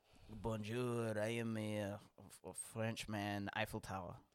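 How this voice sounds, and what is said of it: Put-on French accent. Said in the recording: “that's how you know it's a French accent.”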